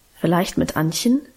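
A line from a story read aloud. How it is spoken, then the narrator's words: Plain. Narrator (German): sagte sie dann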